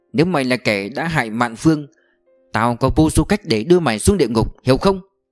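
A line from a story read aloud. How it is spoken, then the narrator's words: Quiet furious growl. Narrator (Vietnamese): Lý Vận Tường giận dữ, im lặng mà cứ như đang gầm lên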